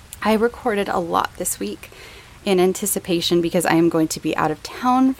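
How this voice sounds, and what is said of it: Strained, failing voice. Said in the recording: “my voice is kind of failing me right now”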